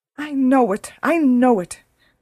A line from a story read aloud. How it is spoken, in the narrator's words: cried her mother